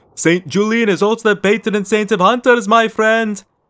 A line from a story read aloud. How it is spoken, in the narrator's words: the man with the mustaches shouted back, laughing